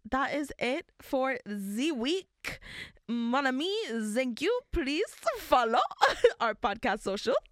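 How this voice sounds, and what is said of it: Put-on French accent. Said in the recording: “That felt like Lumiere from ... from Beauty and the Beast ... No more French accent.”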